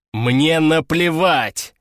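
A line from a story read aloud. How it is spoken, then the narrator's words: Barked. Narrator (Russian): рявкнул Александр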